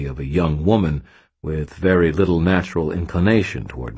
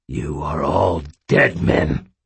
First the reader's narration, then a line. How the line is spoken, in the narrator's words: Aristides snarled